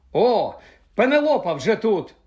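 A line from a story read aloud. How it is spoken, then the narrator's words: Exclaim. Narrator (Ukrainian): вигукнув Персі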